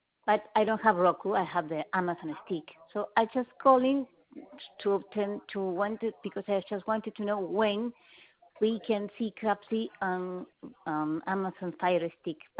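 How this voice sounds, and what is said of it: Speaks English with an accent. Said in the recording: “I'm sorry about my accent.”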